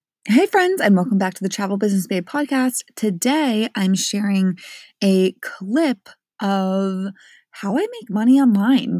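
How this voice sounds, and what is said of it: Sleepy voice. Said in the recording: “my voice is a little bit sleepy”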